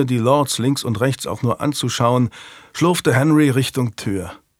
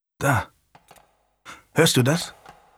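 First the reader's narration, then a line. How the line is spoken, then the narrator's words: Murmured. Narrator (German): raunte ihm sein Cousin, der Earl of Burton, zu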